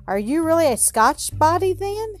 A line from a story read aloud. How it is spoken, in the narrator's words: cried Robin, with new interest in Alan